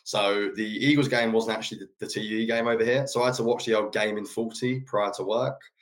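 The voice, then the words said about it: English accent. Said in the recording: “being from England ... you don't know by the accent”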